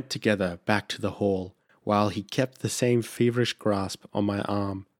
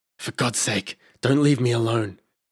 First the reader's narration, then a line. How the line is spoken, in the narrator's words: moaned